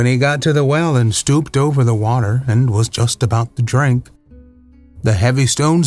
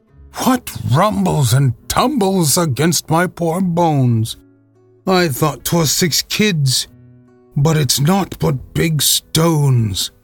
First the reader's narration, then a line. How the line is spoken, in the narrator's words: Then cried he